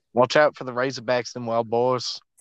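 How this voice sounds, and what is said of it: Exaggerated fake Australian accent. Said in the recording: “this awful Aussie accent that we're doing”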